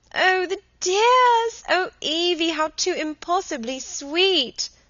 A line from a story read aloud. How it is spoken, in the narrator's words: screamed Helen